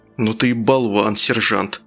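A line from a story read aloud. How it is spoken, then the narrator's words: Hasty gruff mutter. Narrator (Russian): наскоро буркнул один из них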